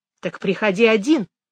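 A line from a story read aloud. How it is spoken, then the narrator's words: Sharp reply. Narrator (Russian): резко ответила Мэгги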